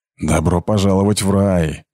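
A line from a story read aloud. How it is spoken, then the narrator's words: Snorted. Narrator (Russian): фыркнула Герда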